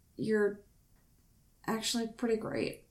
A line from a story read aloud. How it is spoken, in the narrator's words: he added, voice trailing off into a mumble